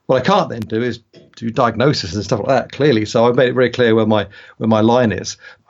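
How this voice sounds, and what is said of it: British accent. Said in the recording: “I'm a Brit, you probably figure that out from my accent”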